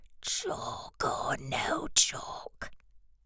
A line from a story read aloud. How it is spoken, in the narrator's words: whispered the third